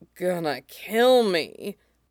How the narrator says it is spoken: Django groans

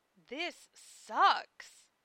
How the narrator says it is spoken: murmured Lena to Zell

